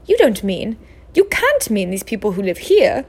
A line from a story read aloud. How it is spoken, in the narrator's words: cried Professor McGonagall